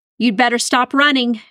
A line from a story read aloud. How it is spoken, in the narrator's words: she yelled